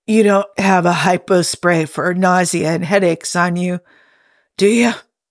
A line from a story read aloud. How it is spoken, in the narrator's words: Jim croaked